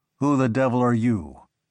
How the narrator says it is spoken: he growled

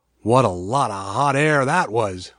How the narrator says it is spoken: one grumbled

